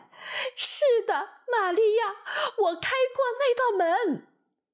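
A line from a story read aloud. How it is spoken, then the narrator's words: Loud cry. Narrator (Chinese): 他大声呼喊起来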